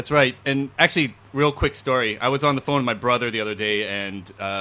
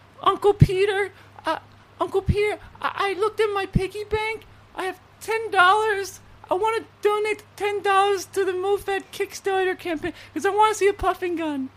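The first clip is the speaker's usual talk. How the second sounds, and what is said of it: Imitates a young child's voice. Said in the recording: “I'll try to do a little impression ... my 8-year-old nephew”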